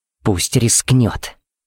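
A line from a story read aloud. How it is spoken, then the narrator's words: Hissing. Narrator (Russian): прошипела Пепси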